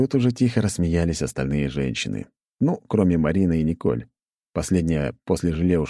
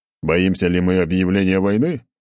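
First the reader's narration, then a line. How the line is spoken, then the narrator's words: Short laugh. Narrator (Russian): хохотнул я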